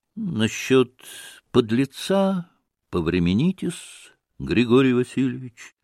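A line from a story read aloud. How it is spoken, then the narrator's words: Calm, restrained. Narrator (Russian): спокойно и сдержанно отразил Смердяков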